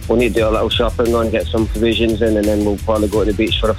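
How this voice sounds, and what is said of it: Mixed Scottish and Irish accent. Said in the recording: “Is it a Scottish accent or a Limerick accent at this point? ... It's probably about 50-50. ... A little bit of a hybrid”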